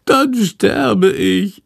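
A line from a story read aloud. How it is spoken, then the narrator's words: Wailing. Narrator (German): jammert Chandor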